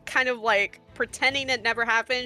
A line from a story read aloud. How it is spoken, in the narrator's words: she yells it again